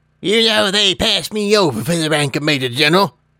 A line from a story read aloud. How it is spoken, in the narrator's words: he said with an indignant snort